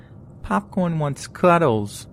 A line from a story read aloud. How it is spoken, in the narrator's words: Popcorn says in a baby voice